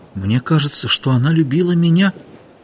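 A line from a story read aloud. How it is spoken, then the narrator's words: Quiet. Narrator (Russian): тихо сказал Ихтиандр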